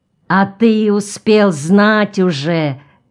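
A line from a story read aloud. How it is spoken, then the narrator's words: Angry drawn-out. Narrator (Russian): сердито протянул Пьер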